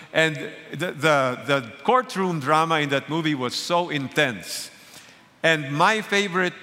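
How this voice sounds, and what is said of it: Usual voice. Nothing is said of it.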